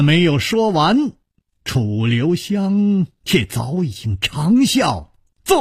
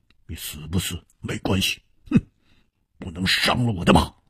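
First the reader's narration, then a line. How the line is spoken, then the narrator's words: Cold. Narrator (Chinese): 黑珍珠冷冷地说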